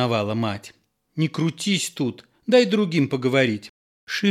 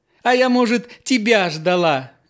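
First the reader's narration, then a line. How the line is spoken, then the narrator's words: Laughing. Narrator (Russian): Нюра засмеялась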